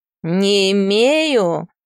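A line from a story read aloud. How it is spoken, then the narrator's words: Through gritted teeth. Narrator (Russian): говорит сквозь зубы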